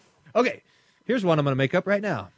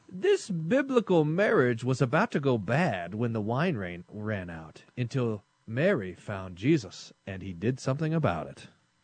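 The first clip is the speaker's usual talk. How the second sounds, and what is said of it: Announcer-style radio voice. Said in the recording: “You see my radio voice there? Practicing.”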